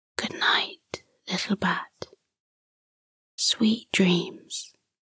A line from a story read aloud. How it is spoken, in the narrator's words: She whispered